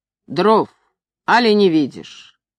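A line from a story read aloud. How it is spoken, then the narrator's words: Rude. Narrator (Russian): Мастер ... грубо сказал Ивану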